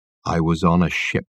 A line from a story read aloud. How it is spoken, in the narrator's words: Michael Wenton Weeks gazed into his eyes with terrible intensity, and said in a low voice